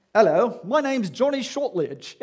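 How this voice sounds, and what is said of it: Attempted British accent. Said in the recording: “I'm hoping that was a British accent.”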